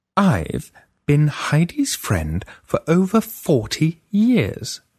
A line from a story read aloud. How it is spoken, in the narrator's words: Freya said slowly